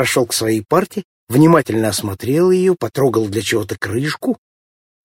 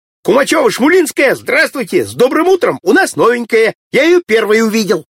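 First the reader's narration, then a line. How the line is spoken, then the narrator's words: Shouting. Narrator (Russian): Володька закричал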